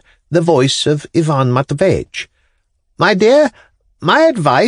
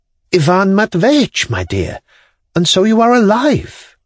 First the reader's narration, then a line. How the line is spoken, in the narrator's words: faltered Yelena Ivanovna